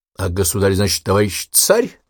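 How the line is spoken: Open snort. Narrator (Russian): Откровенно хмыкнул Николай

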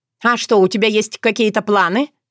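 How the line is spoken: Snorting. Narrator (Russian): фыркнула Ирина

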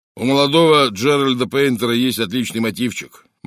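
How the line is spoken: Gloomy remark. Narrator (Russian): мрачно заметил Джеб

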